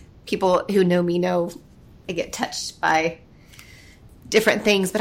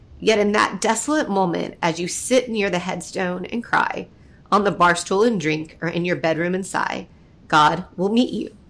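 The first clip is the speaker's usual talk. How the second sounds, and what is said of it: Emotional, choked-up reading voice. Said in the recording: “got all emotional”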